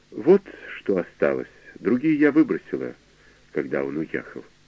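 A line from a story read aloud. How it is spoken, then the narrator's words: Calm. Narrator (Russian): спокойно произнесла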